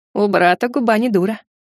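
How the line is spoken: Snorting. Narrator (Russian): хмыкнул Клыкастик

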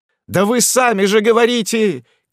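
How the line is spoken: Many voices shouting. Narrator (Russian): кричали со всех сторон

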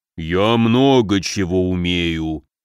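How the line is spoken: Deep bass voice. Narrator (Russian): густым басом отозвался Горыныч

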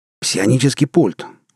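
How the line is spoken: Exclaiming. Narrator (Russian): воскликнул Громов

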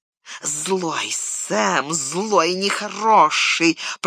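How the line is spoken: Hissing. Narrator (Russian): прошипел Горлум

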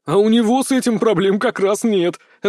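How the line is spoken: Laughing. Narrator (Russian): рассмеялся Терри

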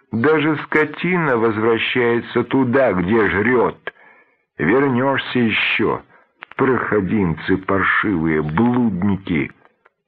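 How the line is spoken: Shouting from outside. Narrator (Russian): с улицы кричала в открытую дверь

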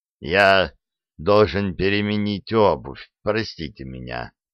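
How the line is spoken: Calm. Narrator (Russian): спокойно проговорил он

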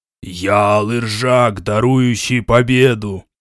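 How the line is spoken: Roaring. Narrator (Russian): проревела дымная фигура

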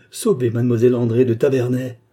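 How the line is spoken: Shout from the crowd. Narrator (French): cette voix qui, comme celle de la Bible, criait des profondeurs de la foule

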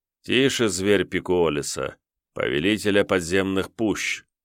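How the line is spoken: Quiet, soothing. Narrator (Russian): тихо промолвил Йомантас

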